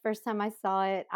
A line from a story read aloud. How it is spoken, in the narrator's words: I laughed until it hurt